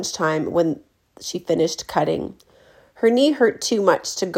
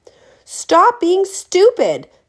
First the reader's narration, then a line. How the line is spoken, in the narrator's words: Nim screamed